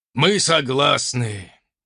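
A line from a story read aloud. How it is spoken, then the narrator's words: Sad sigh. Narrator (Russian): печально вздохнул оппонент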